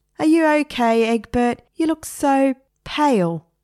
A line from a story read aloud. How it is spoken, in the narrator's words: said, and laughed